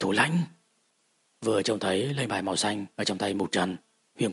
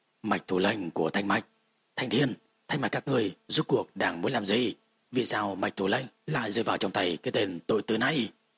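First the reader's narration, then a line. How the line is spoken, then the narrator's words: Cold. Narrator (Vietnamese): Mạch Thủ Mạch Mạc, Mạch Đồng lạnh lùng nói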